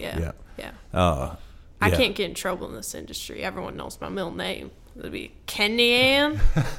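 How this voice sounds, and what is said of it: Southern US accent. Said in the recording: “you sound Southern there, like you raised around here ... I've always wanted to have that Southern accent ... I fooled a couple people”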